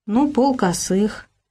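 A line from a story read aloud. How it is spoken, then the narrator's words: Hesitant suggestion. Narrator (Russian): неуверенно предложил Богдан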